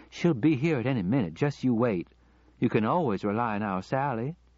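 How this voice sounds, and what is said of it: Southern accent. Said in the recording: “in that southern accent he had once found so attractive”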